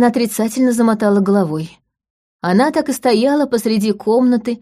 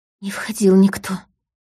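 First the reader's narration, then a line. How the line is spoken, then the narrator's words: Whisper through barely parted lips. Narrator (Russian): почти не разжимая губ, прошептала она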